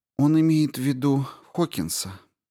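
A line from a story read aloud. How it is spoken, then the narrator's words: Gentle reminder. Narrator (Russian): мягко напомнила ей Рао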